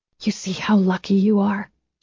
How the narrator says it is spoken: she whispered to her baby

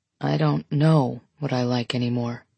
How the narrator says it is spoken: he says quietly

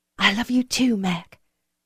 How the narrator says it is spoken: she whispered back

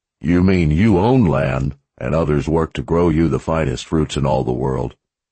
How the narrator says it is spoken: Zed chuckled

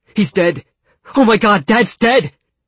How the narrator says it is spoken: His lips trembled as he tried to speak, and when he finally got his mouth open, he shouted the words

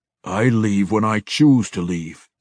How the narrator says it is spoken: Deenan growled

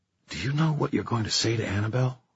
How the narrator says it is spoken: Emma whispered

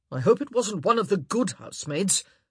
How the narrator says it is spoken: Anthony grumbled

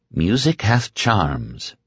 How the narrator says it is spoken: Very quietly, so quietly that it might have been a thought in his own head, Nadine said

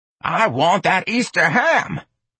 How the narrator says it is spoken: Miss Trixie snarled

